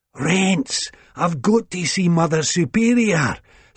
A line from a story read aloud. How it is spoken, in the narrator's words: Sick Boy gasped